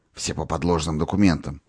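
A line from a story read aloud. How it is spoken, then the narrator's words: Whisper in ear. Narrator (Russian): шепнул он, наклоняясь к уху Наташи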